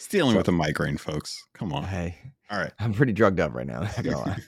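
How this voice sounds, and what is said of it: Hoarse, fading voice. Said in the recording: “I'm rusty. I'm losing my voice. losing my voice again.”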